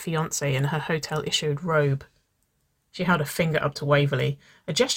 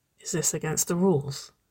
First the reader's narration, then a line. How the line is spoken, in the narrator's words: She whispered